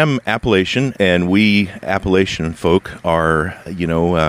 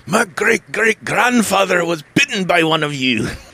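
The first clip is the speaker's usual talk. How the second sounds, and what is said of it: Fairly good put-on Scottish accent. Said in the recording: “one of the better American attempts at a Scottish accent that I've heard.”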